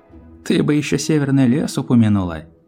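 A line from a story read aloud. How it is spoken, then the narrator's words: Laughing. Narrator (Russian): посмеялась Рэнбоу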